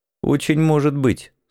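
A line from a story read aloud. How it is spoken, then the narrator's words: Said dryly. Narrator (Russian): сухо бросил я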